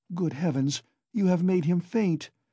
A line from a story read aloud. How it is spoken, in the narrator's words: cried Pulcheria Alexandrovna